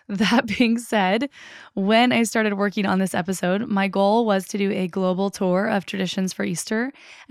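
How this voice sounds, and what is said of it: Croaky, hoarse voice. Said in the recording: “I want to apologize for my croaky voice. I have laryngitis, ... I'm going to do my best to try to not sound like a frog.”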